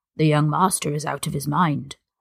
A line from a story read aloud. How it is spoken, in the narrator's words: he continued in an undertone